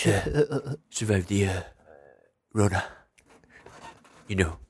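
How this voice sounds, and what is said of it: Imitates another person's voice. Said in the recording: “Your impression is like Alec Baldwin's impression. It's like you're doing an impression of Alec Baldwin doing an impression of ... President Trump”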